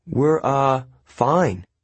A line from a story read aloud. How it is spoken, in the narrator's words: Annabeth stammered